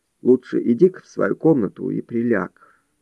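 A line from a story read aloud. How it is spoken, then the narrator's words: Quiet advice. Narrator (Russian): тихо посоветовал он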